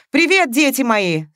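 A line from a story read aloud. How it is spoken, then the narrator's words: Shout from doorway. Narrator (Russian): с порога крикнула Мария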